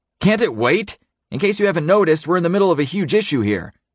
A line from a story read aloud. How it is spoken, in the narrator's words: Wes turns and, without giving me his full attention, says loudly